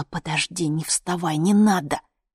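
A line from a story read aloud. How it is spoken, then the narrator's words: Whispering. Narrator (Russian): зашептала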